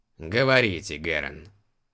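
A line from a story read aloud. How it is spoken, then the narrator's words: Snorted. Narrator (Russian): фыркнул император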